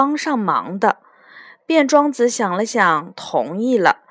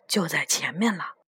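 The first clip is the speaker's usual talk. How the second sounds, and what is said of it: Whispered, hushed line. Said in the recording (Chinese): “小声说”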